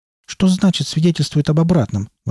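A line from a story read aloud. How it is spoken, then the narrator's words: Exclaimed. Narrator (Russian): воскликнул Джоди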